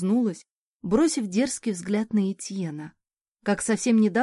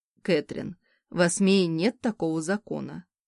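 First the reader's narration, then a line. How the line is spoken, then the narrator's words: Soft calm voice. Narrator (Russian): мягким, спокойным голосом произнес муж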